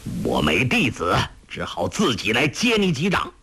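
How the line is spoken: Angry shout. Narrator (Chinese): 黄药师怒气反而更炽，喝道

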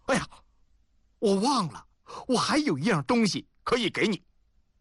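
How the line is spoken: Sudden loud outburst. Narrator (Chinese): 丁鹏沉默着，忽然大声说

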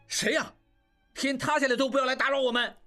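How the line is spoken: Angry. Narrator (Chinese): 应季怒道

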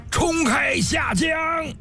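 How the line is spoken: Loud roar. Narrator (Chinese): 赵成大吼一声

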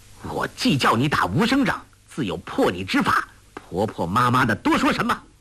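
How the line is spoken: Stern shout. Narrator (Chinese): 梅超风心中微微一动，随即厉声喝道

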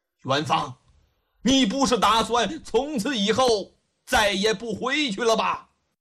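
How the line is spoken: Furious old man blurting. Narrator (Chinese): 恨的呀咬牙切齿，又拿他无可奈何，气得老头气愤之下一句话冲口而出

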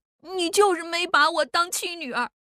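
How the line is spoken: Crying. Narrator (Chinese): 奶坑竟然哭起来了，想起出嫁那天的折腾，想起老妈的死，哭着说

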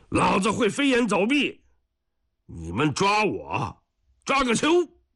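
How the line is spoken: Taunting shout. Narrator (Chinese): 再喊上一声

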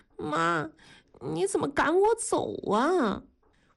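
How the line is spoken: Frightened, tearful voice. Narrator (Chinese): 文丽像受了惊吓一样，声音里带着哭腔说

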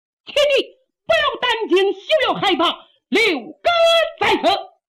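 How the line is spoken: Loud shout. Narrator (Chinese): 有人高喊

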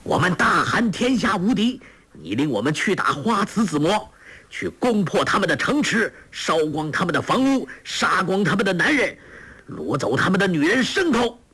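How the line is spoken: Shouting in unison. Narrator (Chinese): 众将齐声叫道

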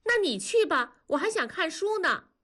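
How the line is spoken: Loud. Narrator (Chinese): 南方就大声地说

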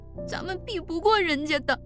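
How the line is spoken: Crying while speaking. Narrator (Chinese): 奶坑依旧哭着说

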